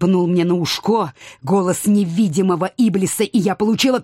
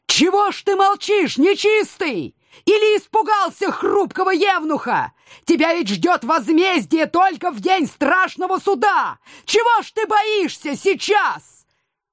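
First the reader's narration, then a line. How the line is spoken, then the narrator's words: Forced shout, awkward. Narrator (Russian): я преодолела себя, выкрикнув снова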